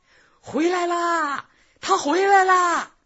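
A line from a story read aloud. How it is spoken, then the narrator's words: Frantic shout. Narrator (Chinese): 汪川发了疯似的大喊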